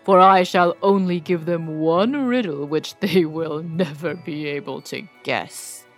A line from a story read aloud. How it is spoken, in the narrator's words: answered the dragon scornfully